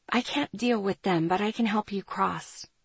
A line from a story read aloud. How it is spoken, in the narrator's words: I whispered